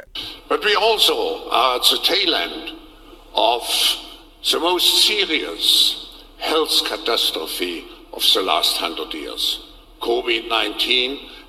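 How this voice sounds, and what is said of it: German-accented English. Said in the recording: “Klaus Schwab in his creepy German accent.”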